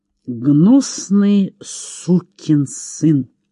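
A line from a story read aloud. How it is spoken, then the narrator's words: Through gritted teeth. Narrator (Russian): произнес Чейз сквозь зубы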